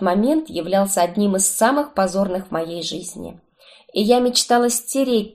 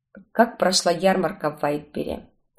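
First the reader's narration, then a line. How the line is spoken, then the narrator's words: Plain. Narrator (Russian): спросил он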